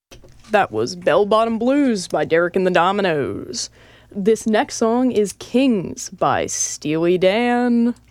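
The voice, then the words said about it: Sports announcer style delivery. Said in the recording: “I feel like a sports announcer right now. Do I sound like one? ... You are absolutely talking like a sports announcer right now”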